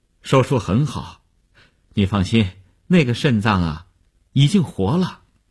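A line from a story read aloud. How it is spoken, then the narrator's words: Relieved, smiling. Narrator (Chinese): 医生……放心地笑笑说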